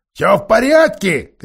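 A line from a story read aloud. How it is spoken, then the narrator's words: Shouting. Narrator (Russian): кричал он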